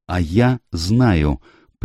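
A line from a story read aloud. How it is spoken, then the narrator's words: Tense interruption. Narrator (Russian): прервала его Эленор напряженным голосом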